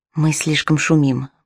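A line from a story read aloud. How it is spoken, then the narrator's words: Whispered. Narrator (Russian): прошептал он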